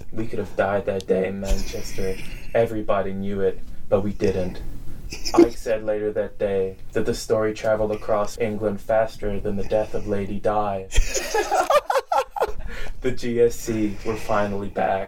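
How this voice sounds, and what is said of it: Imitated movie character voice. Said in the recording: “such a good impression.”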